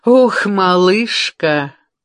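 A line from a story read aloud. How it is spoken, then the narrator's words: Forced laugh. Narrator (Russian): делано рассмеялась Пилар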